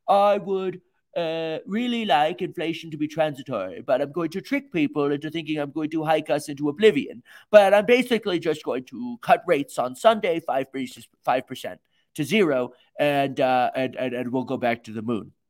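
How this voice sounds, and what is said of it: Imitates another person's voice. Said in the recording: “as Jerome Powell ... Terrible impression.”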